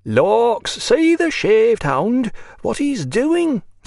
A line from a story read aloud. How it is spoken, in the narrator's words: said the red-haired woman, her whole fat body shaking with laughter